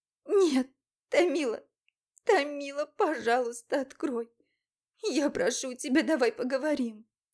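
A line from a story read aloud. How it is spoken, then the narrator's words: Sobbing. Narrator (Russian): разрыдалась я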